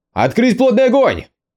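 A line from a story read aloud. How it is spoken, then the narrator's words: Roaring. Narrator (Russian): проревел Юэ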